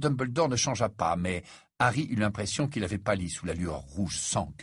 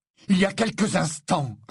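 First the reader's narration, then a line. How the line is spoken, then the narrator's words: Strained, barely restrained reply. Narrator (French): répondit Harry, qui avait les plus grandes difficultés à ne pas hurler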